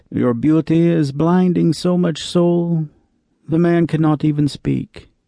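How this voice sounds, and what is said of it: Put-on Romani-style accent. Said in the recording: “in a gypsy accent”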